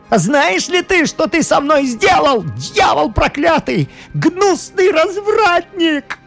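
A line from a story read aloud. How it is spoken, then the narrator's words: Furious young man shouting. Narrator (Russian): Юноша с искаженным от злобы лицом кричал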